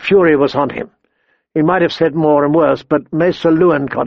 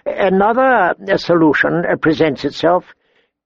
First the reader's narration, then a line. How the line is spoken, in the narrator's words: he said, his voice quiet